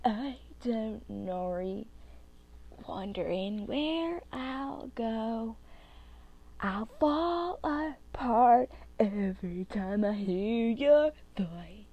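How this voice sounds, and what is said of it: Singing in a funny voice. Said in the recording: “my really funny voice, because I really don't want to sing in my real voice.”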